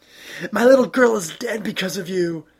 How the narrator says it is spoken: she screams

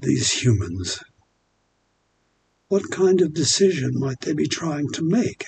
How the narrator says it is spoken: Aphrodite asked everyone

